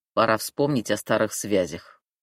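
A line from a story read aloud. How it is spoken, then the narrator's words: Smirking snort. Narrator (Russian): хмыкнул Мишка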